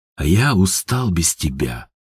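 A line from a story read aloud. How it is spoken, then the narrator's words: Tender whisper. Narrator (Russian): шепнул в ответ Степан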